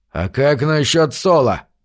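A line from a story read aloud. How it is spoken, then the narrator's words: Grumbling. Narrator (Russian): проворчал Питер Орт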